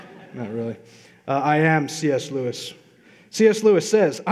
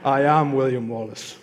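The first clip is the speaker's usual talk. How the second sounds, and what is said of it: Scottish accent, William Wallace impression. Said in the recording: “my Scottish accent from Braveheart”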